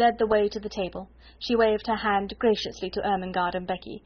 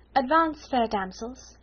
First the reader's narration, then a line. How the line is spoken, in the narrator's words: said in her happy dream voice